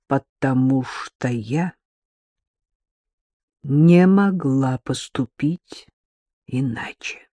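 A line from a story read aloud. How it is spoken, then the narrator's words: Slow. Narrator (Russian): медленно проговорила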